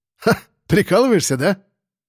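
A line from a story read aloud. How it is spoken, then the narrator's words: Suppressed laugh. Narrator (Russian): Сосед попытался засмеяться, но, видя мою серьезность, проглотил весь хохот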